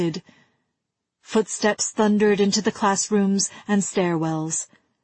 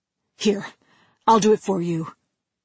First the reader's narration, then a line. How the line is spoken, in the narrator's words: he said anxiously